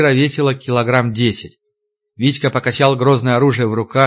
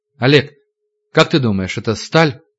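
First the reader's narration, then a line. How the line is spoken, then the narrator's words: Uncertain men's guess. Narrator (Russian): Мужики неуверенно предположили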